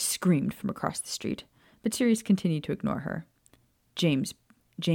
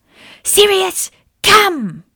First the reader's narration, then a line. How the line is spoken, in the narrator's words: Walburga screamed once more